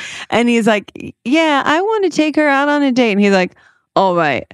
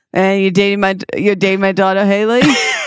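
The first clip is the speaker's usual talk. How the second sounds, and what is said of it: Imitates another person's voice. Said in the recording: “Isn't that exactly how he talks?”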